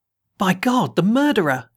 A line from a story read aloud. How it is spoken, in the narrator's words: he cried